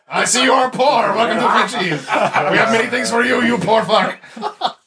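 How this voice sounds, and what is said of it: Fake Quebec French accent. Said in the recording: “talk with a fake Quebec accent”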